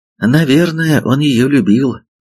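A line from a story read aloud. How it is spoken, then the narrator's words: Sighed. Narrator (Russian): вздохнул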